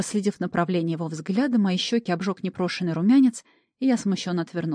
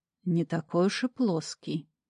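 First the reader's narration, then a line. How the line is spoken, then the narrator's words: Thoughtful drawl. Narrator (Russian): задумчиво протянул Ред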